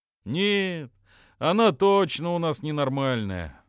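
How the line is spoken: Sigh. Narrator (Russian): вздохнул Джоча

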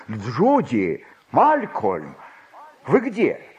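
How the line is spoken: Calling out. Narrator (Russian): он крикнул

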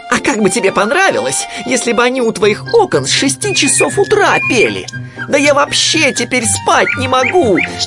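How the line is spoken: Yelling. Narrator (Russian): вопил он

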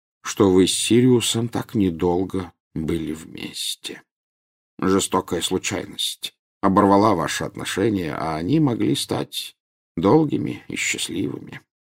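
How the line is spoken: Quiet. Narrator (Russian): тихо сказал Дамблдор

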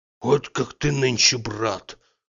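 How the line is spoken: Mutter. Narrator (Russian): Бормотал

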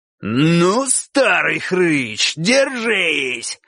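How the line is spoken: Roar. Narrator (Russian): взревел кабан

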